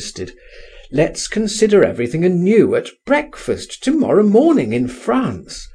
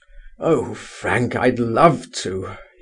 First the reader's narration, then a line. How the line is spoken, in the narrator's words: he groaned